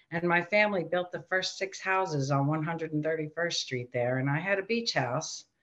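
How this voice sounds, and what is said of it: Strong Queens New York accent. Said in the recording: “you're from Queens, and I can hear the accent coming through loud and clear”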